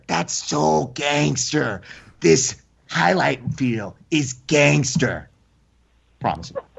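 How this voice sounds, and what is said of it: Poor imitation of another person's voice. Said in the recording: “That's a terrible Eddie Bravo... Worst impersonation ever... she can hear how terrible it is”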